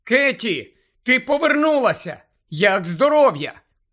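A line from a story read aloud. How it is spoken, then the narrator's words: Shouted. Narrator (Ukrainian): Герміона закричала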